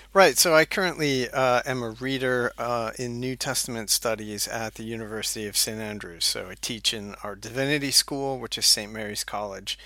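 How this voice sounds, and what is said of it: American accent. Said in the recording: “You can tell from my accent that I am originally from the U.S. ... don't have that Scottish accent”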